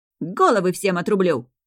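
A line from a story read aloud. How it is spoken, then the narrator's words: Barking roar. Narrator (Russian): рявкнул храбрый король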